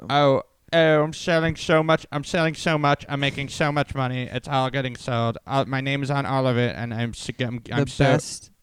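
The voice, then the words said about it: Donald Trump impression. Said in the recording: “How to do a Donald Trump impression. ... The bottom jaw. The bottom jaw.”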